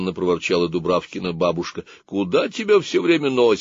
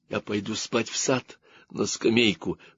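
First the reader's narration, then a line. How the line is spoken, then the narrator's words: Whisper. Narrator (Russian): шепотом ответила Дубравка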